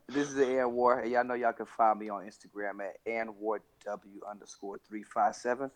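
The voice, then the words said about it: Sick, under-the-weather voice. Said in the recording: “excuse my voice, but this that new Pluco voice... his voice is a little... Under the weather”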